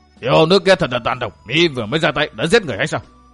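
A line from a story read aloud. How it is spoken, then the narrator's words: Shout. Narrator (Vietnamese): Một người xông ra quát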